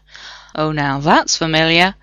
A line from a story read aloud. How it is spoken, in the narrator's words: Rodney muttered